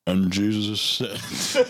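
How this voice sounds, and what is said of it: Southern Baptist preacher narrator voice. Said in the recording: “I'm going to put on my best narrator voice ... You went Southern Baptist.”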